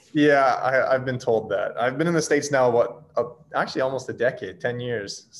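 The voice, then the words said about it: Canadian accent. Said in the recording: “you've got the Canadian accent ... you still say most of the Canadian like, accent”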